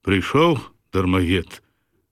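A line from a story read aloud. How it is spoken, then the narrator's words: Menacing tone. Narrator (Belarusian): пагрозліва пачынае жаўтых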